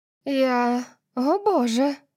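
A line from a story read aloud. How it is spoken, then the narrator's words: Breathless, muffled gasp. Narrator (Russian): выдохнула она, прижимая руку ко рту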